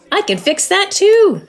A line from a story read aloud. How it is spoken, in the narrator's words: shouted Badger happily